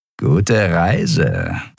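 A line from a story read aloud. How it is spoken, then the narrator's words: Malicious grumble. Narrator (German): brummte ein Skria-Weißmantel boshaft grinsend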